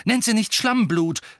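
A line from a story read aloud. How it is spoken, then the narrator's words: Two angry voices together. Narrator (German): sagten Ron und Ginny gleichzeitig und sehr zornig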